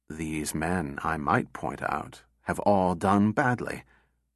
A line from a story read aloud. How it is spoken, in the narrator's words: Susan said quietly